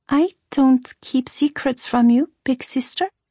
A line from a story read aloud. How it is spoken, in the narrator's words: Emilia said hesitantly